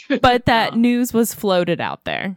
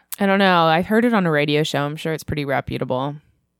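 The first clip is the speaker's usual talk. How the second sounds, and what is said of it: Sarcastic tone. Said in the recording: “Are you being sarcastic? ... Yes, I'm being sarcastic.”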